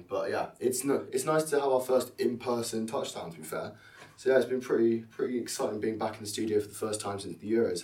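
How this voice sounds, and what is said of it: Hoarse, strained voice. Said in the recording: “My voice isn't at good levels, it's fair to say, screaming at our offensive line.”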